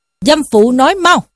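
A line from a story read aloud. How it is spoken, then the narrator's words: Harsh bark. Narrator (Vietnamese): Võ Tòng quát lên rằng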